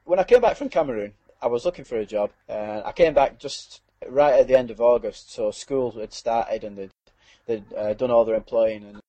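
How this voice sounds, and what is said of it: Barnsley Yorkshire accent. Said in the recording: “It sounds like I'm from Barnsley because I seem to pick up the accent when I was there.”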